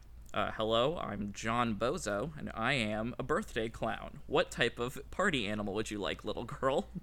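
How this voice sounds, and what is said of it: Funny clown voice. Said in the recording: “the actual funny clown voice”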